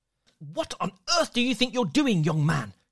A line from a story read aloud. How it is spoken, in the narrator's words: she hissed